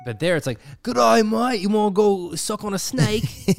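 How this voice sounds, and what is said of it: Imitated Australian accent. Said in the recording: “their incredibly attractive, I was going to say sound effect, accent.”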